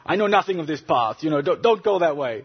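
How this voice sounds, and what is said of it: Poor imitation Turkish accent. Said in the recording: “in her Turkish accent, I can't sort of do a Turkish accent ... It was a bad accent”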